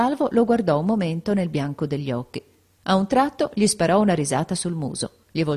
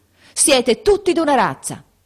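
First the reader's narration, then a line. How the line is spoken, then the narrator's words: Sudden shout. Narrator (Italian): gridò improvvisamente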